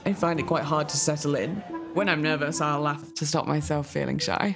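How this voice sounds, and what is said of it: Expat accent. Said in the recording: “it's a bit nuts. It's what they call an expat rat accent.”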